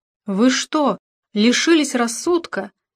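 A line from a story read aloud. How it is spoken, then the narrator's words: Frantic exclamation. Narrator (Russian): вне себя воскликнула она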